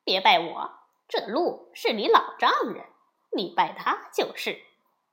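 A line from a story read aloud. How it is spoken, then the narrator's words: Teasing. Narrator (Chinese): 悟空取笑说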